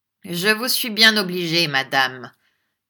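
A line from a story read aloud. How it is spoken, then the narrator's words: Faintly sneering. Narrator (French): dit Ralph avec un ricanement imperceptible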